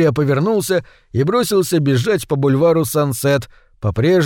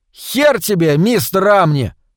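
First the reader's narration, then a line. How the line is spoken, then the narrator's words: Shouted. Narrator (Russian): крикнул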